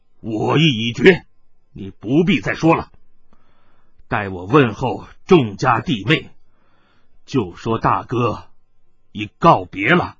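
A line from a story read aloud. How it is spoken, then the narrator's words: Stern, sharp voice. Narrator (Chinese): 艾天福面色一沉，厉声说道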